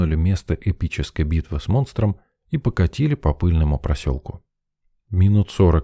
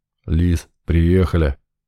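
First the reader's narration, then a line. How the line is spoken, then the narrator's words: Deep bass voice. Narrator (Russian): пробасил Буга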